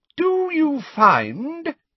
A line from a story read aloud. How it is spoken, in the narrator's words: said Professor Umbridge in a ringing voice to Pansy Parkinson